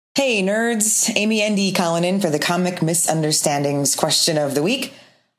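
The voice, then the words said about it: North Dakota, Minnesota accent. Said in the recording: “Here's somebody with a North Dakota, Minnesota kind of accent for you.”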